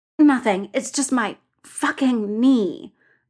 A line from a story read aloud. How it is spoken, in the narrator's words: Bull says through gritted teeth